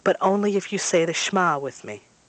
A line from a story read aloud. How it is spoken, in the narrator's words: she says somewhat irritably